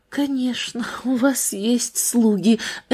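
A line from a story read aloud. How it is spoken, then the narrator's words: Barely audible female echo. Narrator (Russian): эхом отозвалась она чуть слышно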